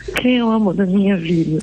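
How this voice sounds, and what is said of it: Baby talk voice. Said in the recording (Portuguese): “A gente fala com voz de neném”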